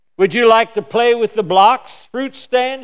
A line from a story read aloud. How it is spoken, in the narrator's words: she asked